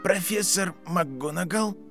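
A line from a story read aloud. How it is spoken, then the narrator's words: Quiet boy's voice. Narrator (Russian): тихо произнес мальчик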